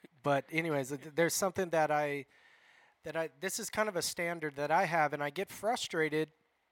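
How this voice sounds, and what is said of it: Raspy voice. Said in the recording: “I'm raspy today. It's a raspy day.”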